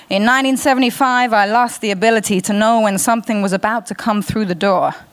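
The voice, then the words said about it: Put-on American accent. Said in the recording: “Excuse the American accent, I'll do my best.”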